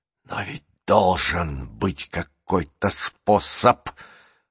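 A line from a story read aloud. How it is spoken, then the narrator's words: Whispered. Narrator (Russian): прошептала она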